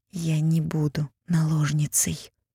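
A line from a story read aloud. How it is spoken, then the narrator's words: Quiet. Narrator (Russian): тихо сказала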